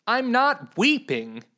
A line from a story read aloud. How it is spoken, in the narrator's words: Lady Clara shouted to the knight, but amidst his clanking metal and their heavy breathing, her words seemed to not reach his ears